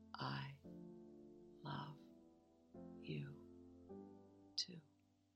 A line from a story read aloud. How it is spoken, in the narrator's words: He weakly mouthed